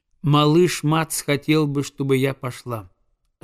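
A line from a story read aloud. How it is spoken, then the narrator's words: Plain. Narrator (Russian): ответила Оса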